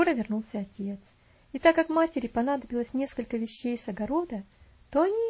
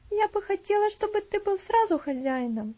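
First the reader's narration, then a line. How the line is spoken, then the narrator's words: Sighed. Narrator (Russian): вздохнула Стефани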